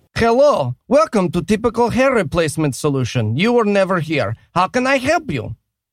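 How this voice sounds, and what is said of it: Put-on Eastern European accent. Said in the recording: “not sure about the accent ... Eastern European”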